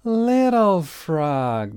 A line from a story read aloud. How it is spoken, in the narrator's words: they shouted